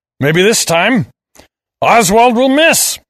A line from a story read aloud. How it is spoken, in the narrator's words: I roared